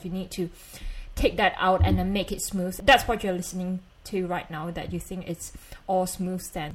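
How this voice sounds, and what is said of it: Malaysian accent. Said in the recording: “I do normally speak like this. I do have Malaysian accent”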